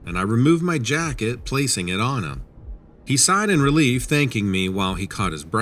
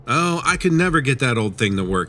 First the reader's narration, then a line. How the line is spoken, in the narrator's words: he said